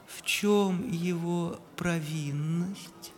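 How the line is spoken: Gentle question. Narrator (Russian): ласково спросил император

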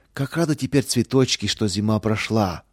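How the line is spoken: Joyful echo. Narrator (Russian): радостно вторила ему Лидия

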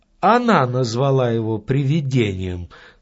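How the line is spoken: Calm, small man. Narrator (Russian): спокойно сказал маленький человек

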